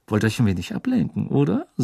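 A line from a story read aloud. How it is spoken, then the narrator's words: Quiet. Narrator (German): sagte Malfoy leise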